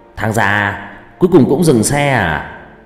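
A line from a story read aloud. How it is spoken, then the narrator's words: Loud laughing. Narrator (Vietnamese): Nó cười lớn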